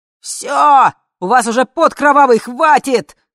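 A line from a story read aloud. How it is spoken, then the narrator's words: Shout. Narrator (Russian): закричал глава комитета безопасности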